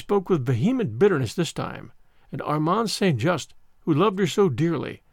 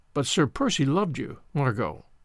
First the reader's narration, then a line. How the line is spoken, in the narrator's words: he repeated gently